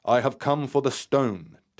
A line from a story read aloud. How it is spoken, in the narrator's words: stated firmly, as the note vibrated across the boat